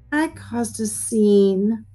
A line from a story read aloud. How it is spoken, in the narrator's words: Grandma Lilah said sadly